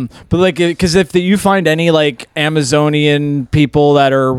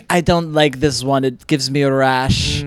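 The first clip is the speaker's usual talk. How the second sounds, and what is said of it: Put-on Jewish accent. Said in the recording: “That was a very good Jewish accent”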